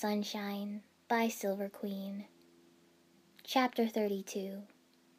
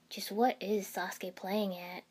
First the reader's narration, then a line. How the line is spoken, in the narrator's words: Kiba asked gruffly